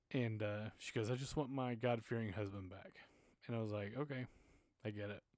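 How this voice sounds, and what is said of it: Emotional, choked-up voice. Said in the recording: “I was getting a little emotional there.”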